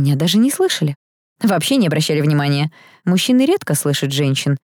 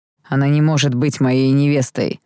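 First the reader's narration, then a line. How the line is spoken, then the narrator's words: Through gritted teeth. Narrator (Russian): процедил принц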